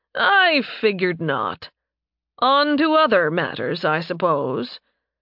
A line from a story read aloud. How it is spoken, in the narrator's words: With a chuckle, Leopold said